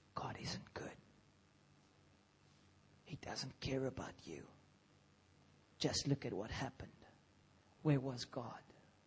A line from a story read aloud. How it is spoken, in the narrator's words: The enemy whispers